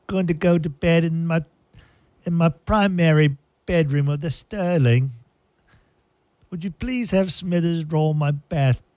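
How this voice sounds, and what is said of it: Put-on posh British accent. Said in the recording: “Sounds very British”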